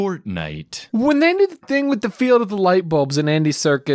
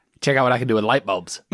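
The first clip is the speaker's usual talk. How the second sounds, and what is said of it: Imitates another person's voice. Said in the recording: “Is that your Andy Serkis impression? ... Yeah, it is. That is pretty good.”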